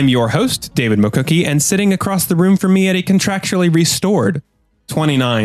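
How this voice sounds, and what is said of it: Usual voice. Nothing is said of it.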